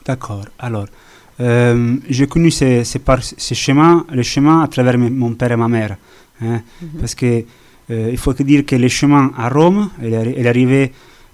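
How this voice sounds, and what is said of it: Italian accent speaking French. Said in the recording (French): “on l'entend à votre accent, vous êtes italien”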